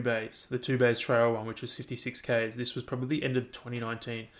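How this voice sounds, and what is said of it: Flat, monotone speaking voice. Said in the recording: “my voice is kind of monotone”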